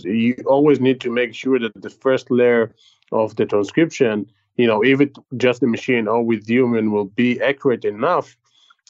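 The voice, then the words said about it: Speaks with a foreign accent. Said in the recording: “despite your accent today”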